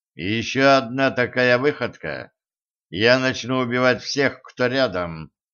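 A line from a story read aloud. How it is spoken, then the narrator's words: Even-voiced warning. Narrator (Russian): ровным голосом предупредил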